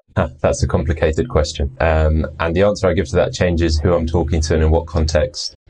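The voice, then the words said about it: British English accent. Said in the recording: “as you can probably hear, my accent's British”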